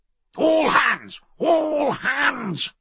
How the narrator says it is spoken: he roared

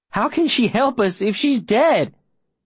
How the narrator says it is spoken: Davy says, his voice wobbly

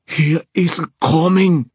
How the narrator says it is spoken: Xinyan shouted

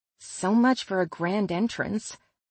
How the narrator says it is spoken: I mumble

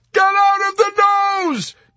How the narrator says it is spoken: Yossarian shrieked in frustration

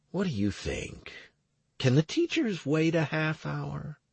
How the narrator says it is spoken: I asked her in a hushed voice

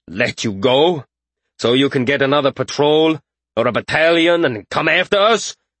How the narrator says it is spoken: He huffed and growled

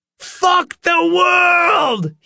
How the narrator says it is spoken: he screamed

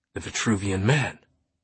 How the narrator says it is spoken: Langdon gasped

